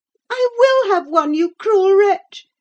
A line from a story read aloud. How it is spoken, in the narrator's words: she screamed